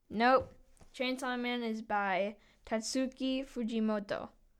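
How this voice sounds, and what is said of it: Name said in a Japanese accent. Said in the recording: “Why I say that with an accent? ... say it with an accent”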